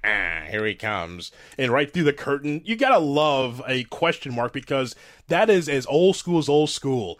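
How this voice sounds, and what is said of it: Impression of announcer Gordon Sully. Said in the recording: “let me praise you on your Gordon Sully impersonation.”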